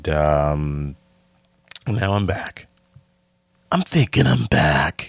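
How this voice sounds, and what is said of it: Keanu Reeves as John Wick impression. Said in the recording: “Keanu Reeves, John Wick. So, great John Wick impression.”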